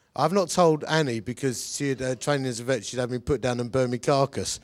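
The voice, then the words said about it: Sick, strained voice, hard to talk. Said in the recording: “as you can tell from my voice, I've had man flu ... I've got some ulcers in my throat and gums and mouth, which is making it a bit hard to talk”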